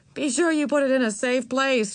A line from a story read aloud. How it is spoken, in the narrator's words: she said, and laughed again